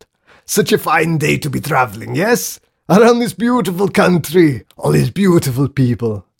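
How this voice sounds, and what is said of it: Hugely exaggerated foreign accent. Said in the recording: “he exploded in a hugely exaggerated accent.”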